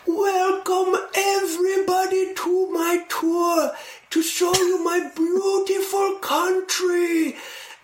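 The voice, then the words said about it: Thin high voice, grand proclaiming tone. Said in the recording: “when I talk like him, I'm doing an impersonation of him specifically and not an accent ... he had this really thin, like thin high voice that, everything was like a big proclamation”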